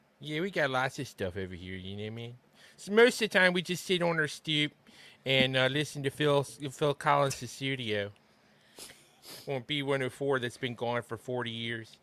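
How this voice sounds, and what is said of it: White Baltimore accent. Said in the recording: “You even have the accent going... The Baltimore accent is a very interesting one... I've been talking sort of in the white one, because there's literally a black version and a white version of the Baltimore accent”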